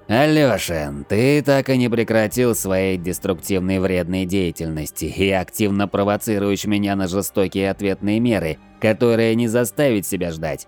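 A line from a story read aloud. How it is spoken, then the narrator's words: Growled. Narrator (Russian): прорычал белотрянец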